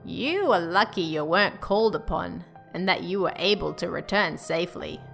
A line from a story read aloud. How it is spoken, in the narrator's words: said